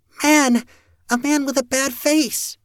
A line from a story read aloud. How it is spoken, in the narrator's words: cried out, almost fighting to get further away from me